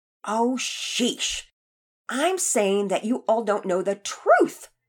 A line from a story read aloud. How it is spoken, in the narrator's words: Emily answered sharply